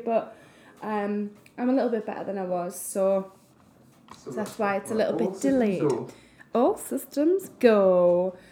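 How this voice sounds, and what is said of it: Voice affected by a cold. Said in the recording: “I've got a little bit of a cold, which you probably hear us barking on, coughing”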